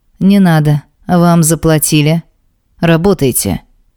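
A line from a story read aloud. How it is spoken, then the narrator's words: Rude, clipped. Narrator (Russian): грубо чеканит тот, кто рядом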